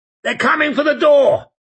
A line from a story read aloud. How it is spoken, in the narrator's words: he shouted